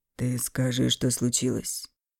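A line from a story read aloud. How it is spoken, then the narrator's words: Soft but insistent repeat. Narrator (Russian): Мягко, но настойчиво повторил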